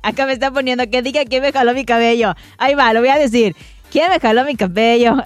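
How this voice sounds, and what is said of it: Yucatecan Spanish accent. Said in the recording (Spanish): “hablo como yucateca, claro que sí, sí hablo así ... mi acento sí es de Yucatán, yo sí hablo como yucateca ... yo creo que sí me salió”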